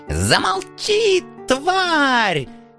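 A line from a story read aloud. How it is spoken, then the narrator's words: Spluttering shriek. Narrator (Russian): Брызгая слюной, завизжал принц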